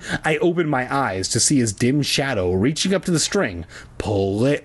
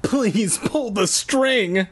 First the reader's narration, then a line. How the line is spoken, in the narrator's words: I called